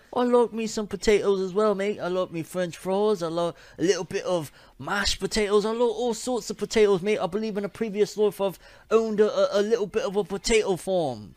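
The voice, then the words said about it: Badly done put-on accent. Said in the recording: “that accent is terrible”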